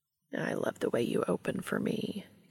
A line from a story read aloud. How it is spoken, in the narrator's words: Cass murmurs, sounding entranced